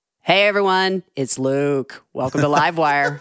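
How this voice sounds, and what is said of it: More melodic, sonorous impression of another person. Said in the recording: “my Luke impersonation ... That was devastatingly accurate ... I just made my voice more melodic and sonorous”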